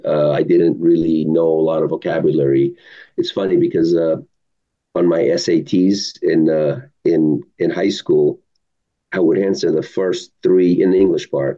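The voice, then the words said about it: Non-native English accent. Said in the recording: “I still have an accent”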